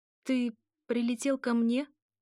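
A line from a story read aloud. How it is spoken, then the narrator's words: Confused, muffled voice. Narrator (Russian): Мой голос звучит растерянно и глухо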